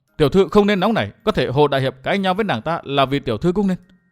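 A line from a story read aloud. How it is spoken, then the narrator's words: Stern voice. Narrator (Vietnamese): Quế Hoa nghiêm giọng nói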